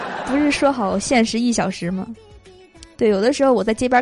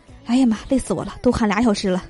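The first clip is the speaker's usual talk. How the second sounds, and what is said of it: Quiet, hushed muttering. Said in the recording (Chinese): “小声的”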